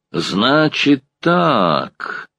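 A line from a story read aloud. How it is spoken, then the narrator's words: Meaningful drawl. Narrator (Russian): многозначительно протянул дворник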